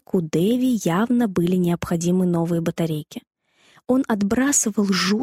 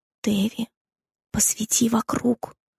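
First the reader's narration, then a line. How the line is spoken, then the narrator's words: Whisper. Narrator (Russian): прошептал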